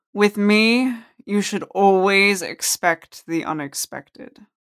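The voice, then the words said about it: Deep resonant character voice. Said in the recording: “the familiar deep voice resonate”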